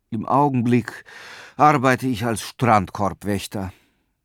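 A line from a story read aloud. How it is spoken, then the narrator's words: Sighing. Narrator (German): seufzte Petrus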